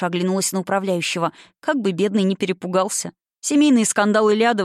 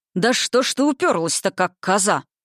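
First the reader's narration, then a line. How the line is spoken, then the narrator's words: Father growling. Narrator (Russian): прорычал отец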